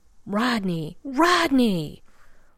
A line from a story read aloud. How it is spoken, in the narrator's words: a small, desperate voice is yelling